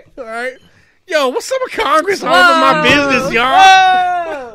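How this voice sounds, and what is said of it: Imitates another person's voice. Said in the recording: “You guys want to hear my Barack Obama impression?”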